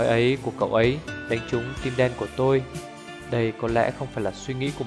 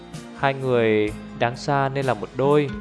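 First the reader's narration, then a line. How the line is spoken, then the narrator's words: Plain. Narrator (Vietnamese): Đại Ngưu nói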